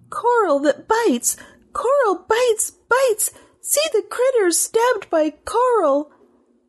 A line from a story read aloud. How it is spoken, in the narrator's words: Taquette gasped